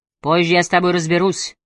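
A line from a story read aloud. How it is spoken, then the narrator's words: Gloomy threat. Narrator (Russian): мрачно посулил Аллейн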